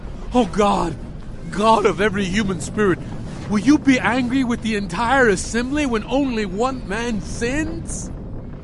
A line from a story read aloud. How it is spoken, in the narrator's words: Moses and Aaron … cried out